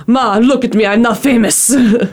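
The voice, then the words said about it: Poor impression of Hondo. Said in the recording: “That was probably the worst impression I've ever done of him.”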